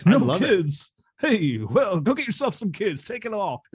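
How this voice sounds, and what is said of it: Imitates another person's voice. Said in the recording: “my bad Rodney impression”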